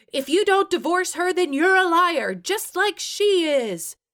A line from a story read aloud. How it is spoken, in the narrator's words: Charlene shrieked